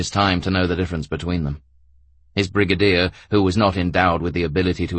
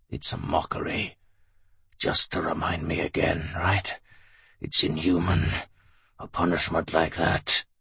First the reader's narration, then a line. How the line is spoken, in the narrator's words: he wheezed almost inaudibly